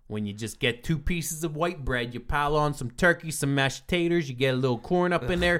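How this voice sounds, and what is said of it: Pittsburgh accent. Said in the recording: “your Pittsburgh accent”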